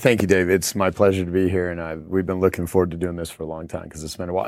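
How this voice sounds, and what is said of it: Tired, worn voice. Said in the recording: “excuse my voice for anyone listening right now because I've been running an event all day, so my voice is a little tired”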